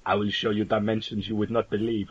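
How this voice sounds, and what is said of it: French accent, Batroc impression. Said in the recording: “Why did he suddenly go French there? It's my Batroc accent coming through again.”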